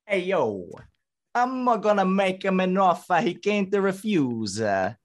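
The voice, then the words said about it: Deliberately bad Italian accent. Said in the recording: “I want a bad accent on this. So I want the Italian. ... Can we do a bad Italian accent on here? We're just going to have fun with a bad one. ... Nice, we got in Mario Luigi territory.”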